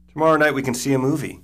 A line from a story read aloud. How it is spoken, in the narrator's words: Caitlin says, too loudly